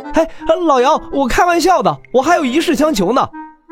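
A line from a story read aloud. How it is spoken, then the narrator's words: Hurried calling out. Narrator (Chinese): 连忙喊道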